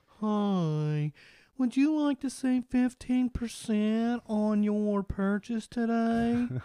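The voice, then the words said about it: Imitates another person's voice. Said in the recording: “this is exactly how he sounds. So I'm really ... good impression.”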